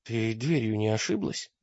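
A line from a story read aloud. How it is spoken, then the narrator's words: Mumbling. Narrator (Russian): промямлил он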